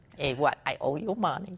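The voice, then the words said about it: Hawaiian pidgin accent. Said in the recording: “slip into Hawaiian accent, you know, I'll do a pidgin accent”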